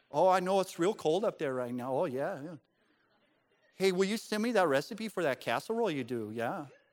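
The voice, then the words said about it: Put-on Midwestern accent. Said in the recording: “more like the people from the Midwest ... She just changed her voice ... A different accent”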